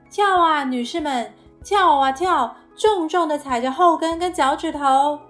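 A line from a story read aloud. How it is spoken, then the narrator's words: Shouting. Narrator (Chinese): 他喊着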